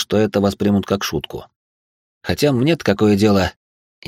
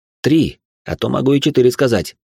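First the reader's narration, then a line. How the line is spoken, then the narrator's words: Snapping retort. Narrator (Russian): огрызнулся я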